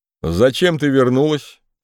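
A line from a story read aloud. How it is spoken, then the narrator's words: Plain. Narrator (Russian): спросил Январь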